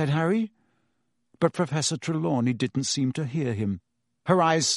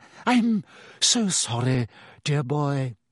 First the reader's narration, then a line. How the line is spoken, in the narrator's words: she said dreamily